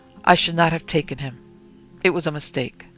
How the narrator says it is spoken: he alternately murmured aloud

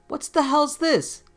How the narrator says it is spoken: A policeman yelled

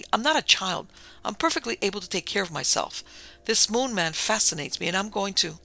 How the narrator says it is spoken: said Sue indignantly

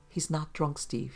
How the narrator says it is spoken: she said gently

